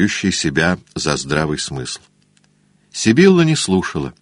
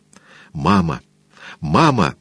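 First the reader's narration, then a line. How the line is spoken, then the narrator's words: Exclaiming. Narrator (Russian): воскликнула она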